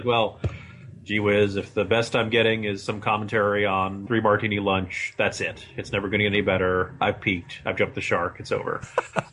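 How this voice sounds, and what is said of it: Impression of Thaddeus McCotter. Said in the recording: “That's my Thaddeus McCotter impression.”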